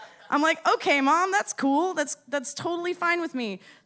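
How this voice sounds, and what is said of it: Usual voice. Nothing is said of it.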